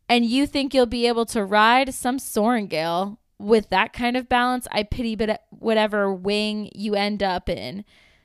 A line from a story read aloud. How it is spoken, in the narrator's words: someone yells out to her